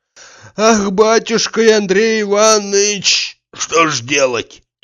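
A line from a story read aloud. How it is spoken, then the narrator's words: Heavy sigh. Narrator (Russian): тяжело вздохнул, сказал Захар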